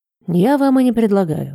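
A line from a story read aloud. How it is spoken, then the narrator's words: Sigh. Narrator (Russian): вздохнул Кресси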